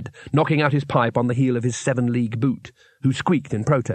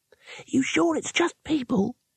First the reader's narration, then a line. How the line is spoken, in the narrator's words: said the youngest wizard nervously